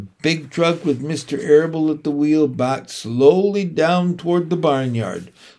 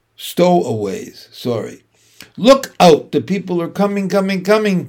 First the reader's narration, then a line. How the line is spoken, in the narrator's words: shouted the gander